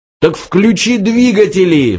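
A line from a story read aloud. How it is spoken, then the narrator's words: Roared. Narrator (Russian): взревел Форд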